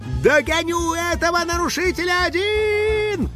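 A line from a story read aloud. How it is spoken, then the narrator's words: House spirit yelling mid-flight. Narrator (Russian): завопил на лету домовой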